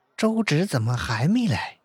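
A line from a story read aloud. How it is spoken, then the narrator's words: Hushed low question. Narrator (Chinese): 特意将声音压低了，问道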